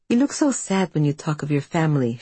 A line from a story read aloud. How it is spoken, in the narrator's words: she says